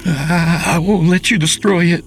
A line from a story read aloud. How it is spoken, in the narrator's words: Charles cried out